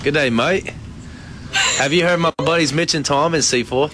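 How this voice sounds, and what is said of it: Attempted Australian accent sounding British. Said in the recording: “put on his best Australian accent ... I sound like I'm from London ... It does sound very British.”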